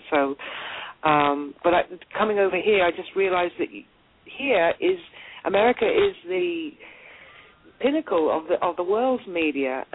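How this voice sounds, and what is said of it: British accent. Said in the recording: “I've got a very British accent”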